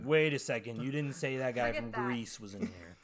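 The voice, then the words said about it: Imitates another person's voice. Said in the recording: “was that your John Travolta impression?”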